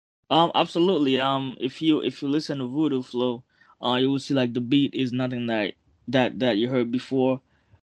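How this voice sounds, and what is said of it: Haitian-accented English. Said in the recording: “plus the accent, you know what I'm saying? Like, I don't know if you can pick my accent too ... Now you're from Port-au-Prince.”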